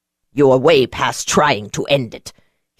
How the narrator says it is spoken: he snapped

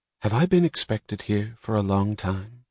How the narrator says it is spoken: she asked

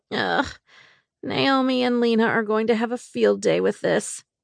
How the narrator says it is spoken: I grumbled

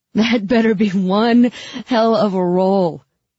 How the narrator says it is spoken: he gasped

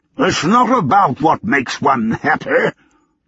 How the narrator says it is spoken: Lord Davenport's blustery roar

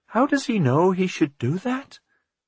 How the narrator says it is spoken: Martha said in an amazed voice

